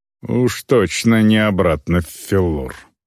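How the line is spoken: Grumbling mutter. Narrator (Russian): пробурчала

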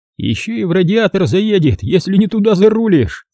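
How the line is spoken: Rueful, amid laughter. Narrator (Russian): поделился горьким опытом штатный ловелас автомобильной роты под взрыв хохота

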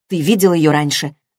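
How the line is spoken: Sharp question. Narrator (Russian): резко спросила Кендра Гэбриэла

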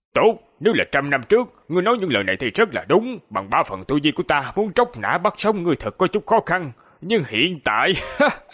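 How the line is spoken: Calm, indifferent old man. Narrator (Vietnamese): Lão giả khi nghe xong lời của người trung niên không tức giận, ngược lại nhàn nhạt nói

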